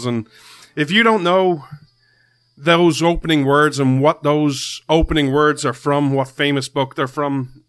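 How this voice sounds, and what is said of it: Irish accent. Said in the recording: “This Irish man stands with America ... you come for the accent”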